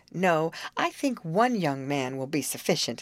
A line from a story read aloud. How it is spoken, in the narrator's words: laughed Betty